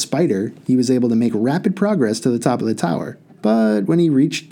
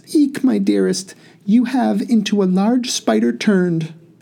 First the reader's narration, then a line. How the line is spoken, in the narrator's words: the princess cried out in a faint voice